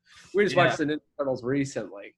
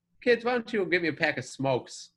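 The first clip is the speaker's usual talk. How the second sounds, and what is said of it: Put-on thick New York accent. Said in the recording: “he's got that big, thick New York accent.”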